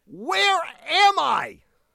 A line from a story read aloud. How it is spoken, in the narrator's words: he yells out to the guy